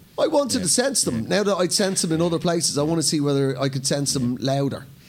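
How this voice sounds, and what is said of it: Lilting Irish accent. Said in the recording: “a lilting Irish accent”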